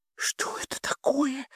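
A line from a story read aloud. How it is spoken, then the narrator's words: Whispering. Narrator (Russian): шептала мисс Орвелл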